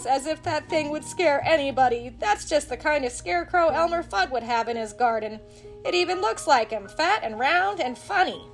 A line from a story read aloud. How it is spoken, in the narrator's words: laughed Bugs